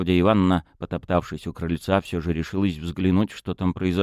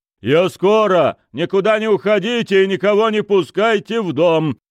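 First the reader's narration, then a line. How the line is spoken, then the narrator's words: Shouting. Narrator (Russian): крикнул он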